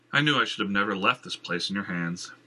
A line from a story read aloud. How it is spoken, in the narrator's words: Jenner sighed